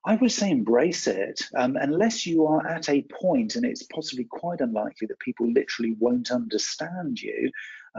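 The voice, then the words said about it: West Country English accent. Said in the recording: “people can understand that I'm from the West Country uh, here in the UK ... down in the southwest of England ... a little bit of an accent there for me”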